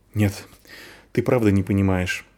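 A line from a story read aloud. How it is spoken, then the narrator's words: Sighed. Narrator (Russian): вздохнул Вар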